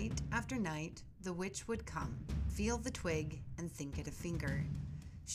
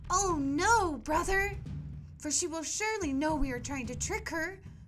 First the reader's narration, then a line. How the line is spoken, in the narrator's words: cried Gretel